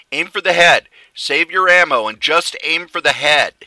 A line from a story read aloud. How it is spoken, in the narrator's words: Ray shouted